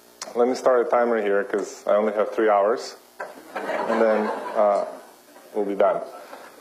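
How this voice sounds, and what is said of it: Very thick foreign accent. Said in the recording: “I have a very thick accent, and it's because I was born in Ukraine”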